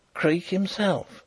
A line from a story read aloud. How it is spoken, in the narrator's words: whispered